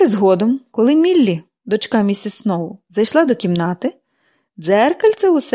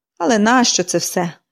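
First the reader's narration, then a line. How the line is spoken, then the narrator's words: Irritated sigh. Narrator (Ukrainian): зітхнула, роздратовано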